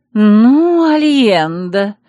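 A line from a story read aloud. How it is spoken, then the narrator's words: Angry hiss. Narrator (Russian): сорвалась на гневное шипение Селиария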